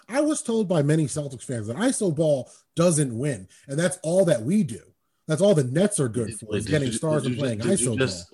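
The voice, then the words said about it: Sarcastic tone. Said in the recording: “I'm being sarcastic, bro.”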